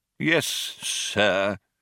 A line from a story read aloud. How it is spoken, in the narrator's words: said the old man coldly